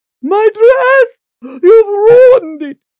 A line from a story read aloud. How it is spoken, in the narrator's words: Lady Ordith shrieked